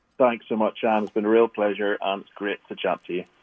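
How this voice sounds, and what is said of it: Authentic Scottish accent. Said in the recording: “we love your accent, by the way. ... The authentic Scottish accent.”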